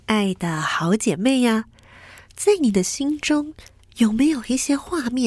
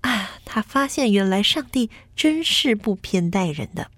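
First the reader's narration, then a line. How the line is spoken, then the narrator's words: Sighing with wonder. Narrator (Chinese): 他很感叹地说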